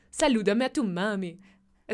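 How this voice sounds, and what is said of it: Put-on Portuguese accent, sounding Colombian. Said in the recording (Spanish): “¿Cómo, es el acento portugués? ... Eso sonó Colombia.”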